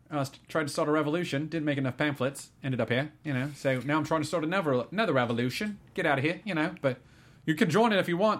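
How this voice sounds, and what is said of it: Surprisingly good Kiwi accent. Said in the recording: “You've got a surprisingly good Kiwi accent ... I'm just channeling Rhys Darby, really.”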